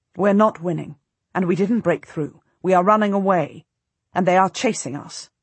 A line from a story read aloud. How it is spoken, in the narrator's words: I say harshly